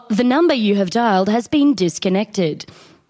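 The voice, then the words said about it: Imitates a recorded phone announcement voice. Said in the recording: “I'm famous Telstra woman. ... That's my impression of the famous person.”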